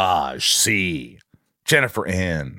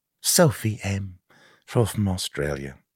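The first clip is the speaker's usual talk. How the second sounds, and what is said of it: Poor attempted accent sounding English. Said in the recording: “That wasn't a good, that was an English accent.”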